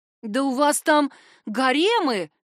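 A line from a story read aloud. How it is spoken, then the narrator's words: Indignant exclamation. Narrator (Russian): негодующе воскликнул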